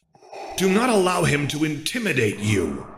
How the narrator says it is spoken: Vader roared at the boy

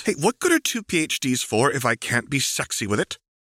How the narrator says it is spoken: She snaps again

